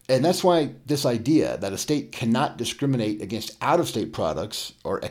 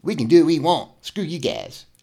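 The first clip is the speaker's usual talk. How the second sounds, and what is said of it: Eric Cartman impression. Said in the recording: “do an Eric Cartman impersonation.”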